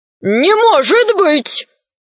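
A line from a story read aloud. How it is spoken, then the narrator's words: Wizards shouting together. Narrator (Russian): закричали волшебники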